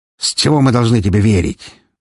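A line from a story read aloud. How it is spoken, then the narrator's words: Angry young voice. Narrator (Russian): Злобно поинтересовался молодой ветроног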